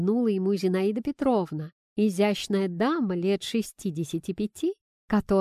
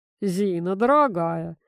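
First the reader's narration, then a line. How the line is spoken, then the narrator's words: Grandfather's grumble. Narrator (Russian): проворчал дедушка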